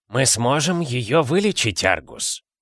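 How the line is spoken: Calm. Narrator (Russian): спокойно сказал Дамблдор

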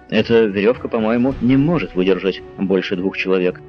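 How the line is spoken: Plain. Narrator (Russian): сказал он

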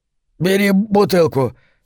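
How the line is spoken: Strained, then coughing. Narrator (Russian): выдавил Хок и закашлялся

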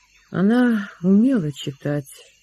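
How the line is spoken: Sad. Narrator (Russian): ответил Лессинг печально

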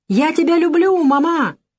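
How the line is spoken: Child shouting. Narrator (Russian): Дочка крикнула

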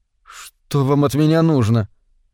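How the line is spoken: Frightened question. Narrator (Russian): спросил испуганно Вейн

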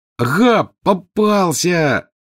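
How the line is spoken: Triumphant yell. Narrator (Russian): завопил Рон

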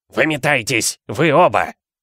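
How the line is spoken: Hoarse wheeze. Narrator (Russian): прохрипел дядя Вернон

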